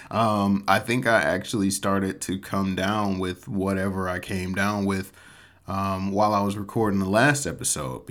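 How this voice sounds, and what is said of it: Slightly off, sick-sounding voice. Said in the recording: “my voice is still a little bit off ... I spent the better part of last week just absolutely demolished with sickness”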